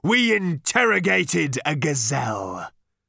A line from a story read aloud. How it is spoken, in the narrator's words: roared